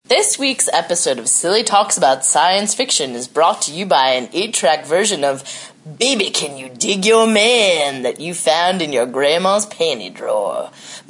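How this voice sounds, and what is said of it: Deep, husky sick-sounding voice. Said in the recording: “Kissed with a cold ... has some Captain Trips today ... I have a nice deep voice for everyone out there that's into, like, Kathleen Turner”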